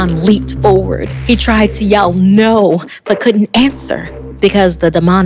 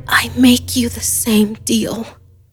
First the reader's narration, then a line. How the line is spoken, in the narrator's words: Crying and gasping, Michaela whispered